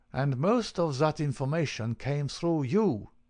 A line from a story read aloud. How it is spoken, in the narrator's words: he cried